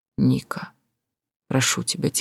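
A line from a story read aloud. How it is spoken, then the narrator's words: Quiet speech. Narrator (Russian): тихо сказал он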